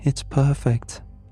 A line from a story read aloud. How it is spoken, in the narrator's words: she murmured